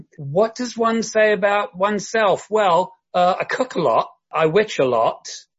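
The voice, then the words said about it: Southern English London accent. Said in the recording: “your accent sort of gives you away ... I'm originally from the south of England. I grew up in and around London.”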